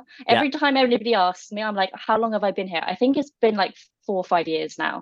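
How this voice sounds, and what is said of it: British accent. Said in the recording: “you can probably tell from my accent, I'm not originally Canadian ... I'm originally from the UK”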